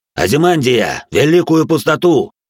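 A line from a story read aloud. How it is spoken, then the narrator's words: Uneasy shout. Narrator (Russian): крикнул пламенеподобный, всей своей кожей чувствуя недоброе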